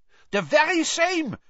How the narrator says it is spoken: said Karkaroff eagerly

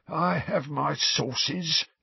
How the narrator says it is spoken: said Filch, in a self-satisfied hiss

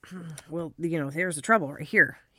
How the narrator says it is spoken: he muttered

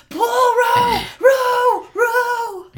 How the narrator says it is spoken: Caspian just yells over the top of him

